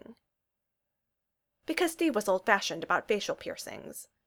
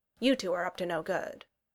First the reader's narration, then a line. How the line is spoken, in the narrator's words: greeted them